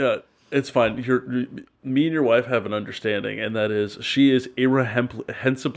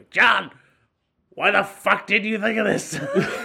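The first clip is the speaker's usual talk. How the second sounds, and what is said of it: Raspy, harsh smoker's voice impression. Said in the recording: “my wife started smoking unfiltered menthols for 30 years there... Your impression is not kind... It has the bog hag energy”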